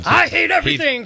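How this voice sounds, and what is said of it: Impression of Span. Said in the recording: “should I do like a Span impersonation? ... that's pretty accurate.”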